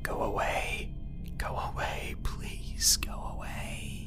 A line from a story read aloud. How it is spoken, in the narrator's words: chanted under my breath